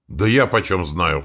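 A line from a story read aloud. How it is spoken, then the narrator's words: Skeptical snort. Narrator (Russian): хмыкнул я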